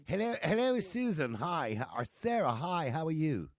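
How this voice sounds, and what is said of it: Put-on posh accent. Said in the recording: “I can put on a posh accent too if you like. Do you want me to put on a posh accent?”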